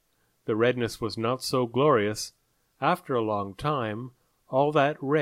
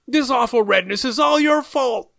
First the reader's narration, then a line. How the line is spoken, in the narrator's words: they shouted